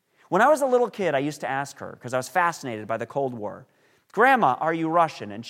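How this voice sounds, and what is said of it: Usual voice. Nothing is said of it.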